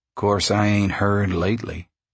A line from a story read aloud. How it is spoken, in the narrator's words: said the hitchhiker